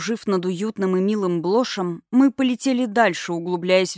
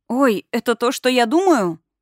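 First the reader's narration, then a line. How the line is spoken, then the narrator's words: Exclaiming. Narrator (Russian): воскликнула я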